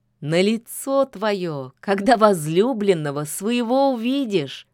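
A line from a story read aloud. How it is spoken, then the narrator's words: Laughing. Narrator (Russian): засмеялась лишачиха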